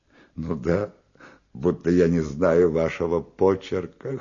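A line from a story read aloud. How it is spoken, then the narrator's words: Girl laughing, affectedly shrieking. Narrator (Russian): хохотала девица, манерно взвизгивая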